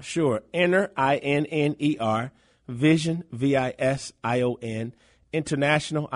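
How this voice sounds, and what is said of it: Slight Southern drawl. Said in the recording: “You hear that little southern drawl from that hails from Florida, right?”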